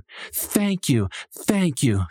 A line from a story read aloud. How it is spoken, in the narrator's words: she exclaimed